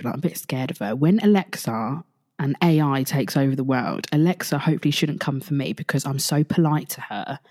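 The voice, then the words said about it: Quiet whispering. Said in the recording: “I've got to talk a bit quiet ... Can you hear how I'm whispering now? I'm actually whispering.”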